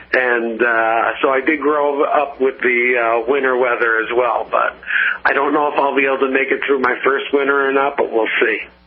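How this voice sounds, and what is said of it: New Jersey accent. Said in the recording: “if you can't tell from the accent, I am from New Jersey.”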